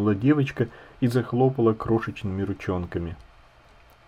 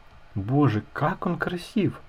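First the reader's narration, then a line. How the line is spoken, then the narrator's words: Whisper. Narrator (Russian): шепнула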